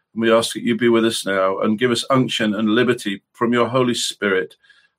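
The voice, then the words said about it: Slightly hoarse, croaky voice. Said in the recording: “I've got a bit of a frog in my throat”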